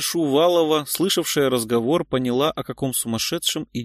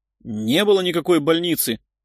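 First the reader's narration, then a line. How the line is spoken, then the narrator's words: Indignant shout, middle-aged man. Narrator (Russian): Возмущенно выкрикнул всклокоченный мужчина лет 40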